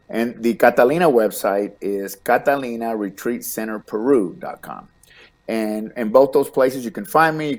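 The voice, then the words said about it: Slight Texas accent. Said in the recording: “I know I have a little accent. Dallas, it's a Texas accent”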